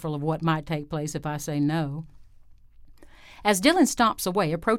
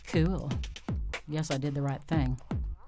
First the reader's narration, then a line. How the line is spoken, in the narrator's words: She smiles and mutters